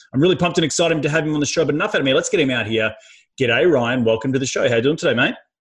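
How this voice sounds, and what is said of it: Australian accent. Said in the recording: “That Aussie accent”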